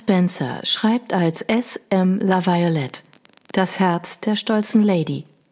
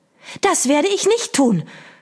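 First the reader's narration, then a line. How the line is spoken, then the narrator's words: Shouting, whirlwind. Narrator (German): schrie der Wirbelwind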